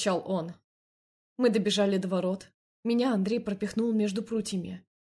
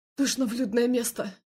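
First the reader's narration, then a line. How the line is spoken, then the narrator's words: Breathless, strained. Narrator (Russian): Задыхаясь, выдавил он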